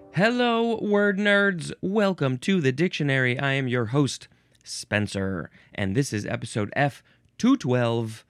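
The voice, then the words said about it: Tired, not yet warmed-up voice. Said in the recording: “I'm still pretty tired. I don't know if you can hear it in my voice. I need to get it warmed up.”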